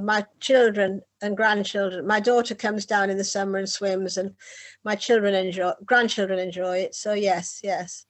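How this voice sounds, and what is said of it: Northern English accent. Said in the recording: “as you probably tell from my accent, I come from the north of England, from Whitley Bay”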